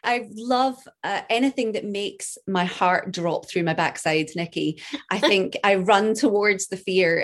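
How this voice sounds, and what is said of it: Scottish accent. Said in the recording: “That amazing Scottish accent”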